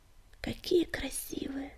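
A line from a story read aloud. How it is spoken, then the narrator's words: Whispered. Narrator (Russian): прошептал Огнегриф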